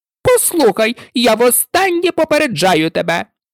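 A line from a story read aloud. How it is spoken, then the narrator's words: Shout. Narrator (Ukrainian): закричала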